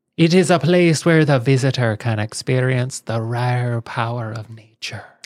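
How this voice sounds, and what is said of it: Fairly good put-on Irish accent. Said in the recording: “Was a pretty good accent. That was, not bad. Not bad... Until someone from Ireland hears it... for an American, that is a good”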